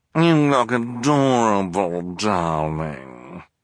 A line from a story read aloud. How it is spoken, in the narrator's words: purred Esme